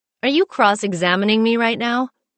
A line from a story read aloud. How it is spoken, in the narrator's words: Dan chuckled